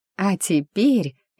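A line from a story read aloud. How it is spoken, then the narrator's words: Chuckling woman. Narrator (Russian): я хохотнула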